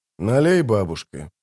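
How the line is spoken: Gloomy request. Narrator (Russian): попросил он мрачно

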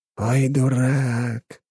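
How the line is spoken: Drawled. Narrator (Russian): протянул он

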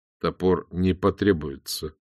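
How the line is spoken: Weary speech. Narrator (Russian): устало промолвил

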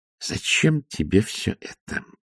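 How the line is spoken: Hissing. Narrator (Russian): прошипела матушка Буревей

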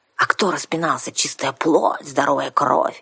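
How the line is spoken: Angry hiss. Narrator (Russian): сердито прошипела наемница

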